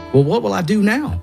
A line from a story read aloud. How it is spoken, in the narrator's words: I asked